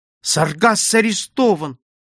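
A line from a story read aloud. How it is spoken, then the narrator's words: Exclamation. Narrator (Russian): воскликнула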